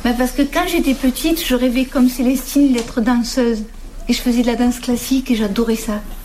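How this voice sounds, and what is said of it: Southern French accent. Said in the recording (French): “mon accent vient du sud de la France... C'est l'accent plutôt de mon village natal, et qui est dans le Vaucluse, entre Cavaillon et Aix-en-Provence”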